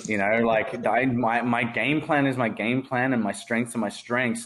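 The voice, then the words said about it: Noticeable accent. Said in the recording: “my accent ... the accent just makes it even better”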